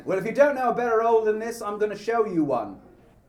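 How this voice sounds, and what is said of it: Put-on Cockney accent. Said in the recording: “I have to do it in a Cockney accent.”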